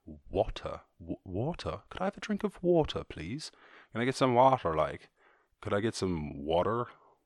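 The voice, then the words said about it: Switching between three different accents. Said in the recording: “Those are my three accents. So when I say water, it's like somewhere in between them.”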